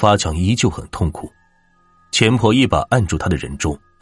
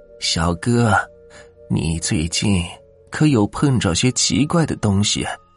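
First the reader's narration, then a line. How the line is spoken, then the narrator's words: Grave, quiet question. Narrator (Chinese): 钱婆一脸沉下去，小声的问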